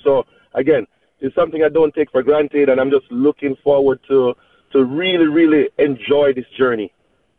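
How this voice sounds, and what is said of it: Caribbean accent. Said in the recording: “your Caribbean accent”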